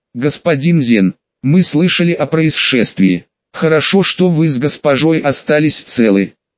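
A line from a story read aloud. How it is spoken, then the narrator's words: Plain. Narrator (Russian): сказал Виктор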